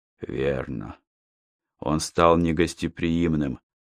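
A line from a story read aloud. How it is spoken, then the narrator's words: Sighing old man. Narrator (Russian): вздохнул старик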